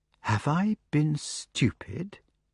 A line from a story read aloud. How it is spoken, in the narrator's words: he asked slowly